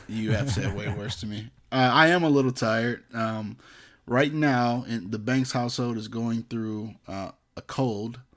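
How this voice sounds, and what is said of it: Tired-sounding voice. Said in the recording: “You sound a little bit tired.”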